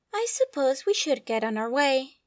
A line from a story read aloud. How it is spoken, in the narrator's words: Obi-Wan said beside him, with a little sigh